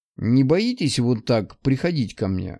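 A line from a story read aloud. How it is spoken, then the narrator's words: Skeptical snort. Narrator (Russian): хмыкнул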